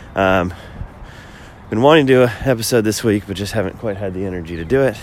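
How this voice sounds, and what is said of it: Voice sounds ill, not fully recovered. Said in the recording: “I haven't been feeling super well this week... as you can probably tell from my voice, not 100% recovered”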